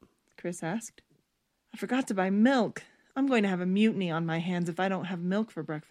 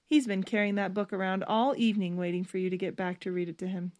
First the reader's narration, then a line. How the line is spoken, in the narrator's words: Stephanie said